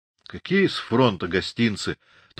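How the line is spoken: Melancholy sigh. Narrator (Russian): тоскливо вздохнул Григорий

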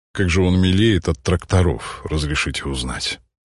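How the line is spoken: Tired, smiling. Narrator (Russian): Устало улыбнулся Никодим Павлович

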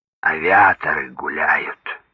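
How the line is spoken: Sarcastic creaky old voice. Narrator (Russian): Старик язвительно проскрипел

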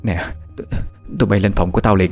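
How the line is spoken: Trembling voice. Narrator (Vietnamese): bà ta nói bằng cái giọng run run

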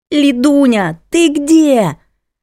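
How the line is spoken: Yelling over phone. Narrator (Russian): Завопила трубка голосом Аллы, подруги с работы

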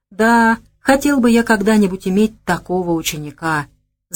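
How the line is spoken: Envious sigh, old man. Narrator (Russian): завистливо вздохнул генерал

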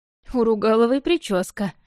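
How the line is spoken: Amused snort. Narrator (Russian): хмыкнула Меркова

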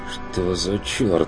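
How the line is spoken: Bewildered murmur. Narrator (Russian): проронил Бруно растерянно

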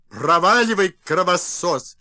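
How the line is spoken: Shouting. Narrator (Russian): Закричали

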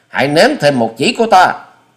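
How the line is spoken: Shouted. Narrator (Vietnamese): Hoa Sĩ Kiệt quát thêm

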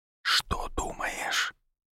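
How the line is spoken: Barely audible whisper. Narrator (Russian): прошептал еле слышно

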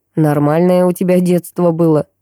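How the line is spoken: Wry snort. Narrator (Russian): хмыкнул он

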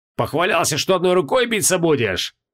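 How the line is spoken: Bellowed. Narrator (Russian): гаркнул Хабокин

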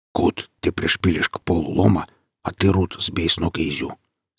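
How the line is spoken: Indistinct whisper to himself. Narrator (Russian): сказал он это неразборчивым шепотом, скорее для себя

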